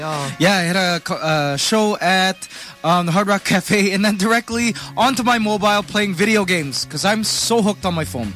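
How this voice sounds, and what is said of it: Hoarse, strained voice. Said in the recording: “My voice is gone because I've been staying up all night”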